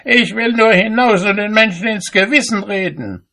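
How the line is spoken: Called out. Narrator (German): rief

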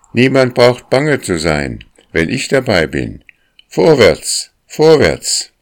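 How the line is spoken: Incessant calling. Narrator (German): rief sie ununterbrochen

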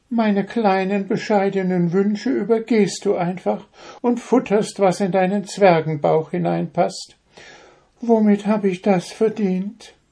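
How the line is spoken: Deep sigh, imp. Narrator (German): Der Wichtel seufzte tief

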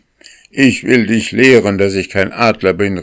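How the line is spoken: Angry shout. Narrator (German): rief er wütend

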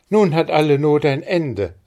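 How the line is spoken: Calling out. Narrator (German): rief Maren

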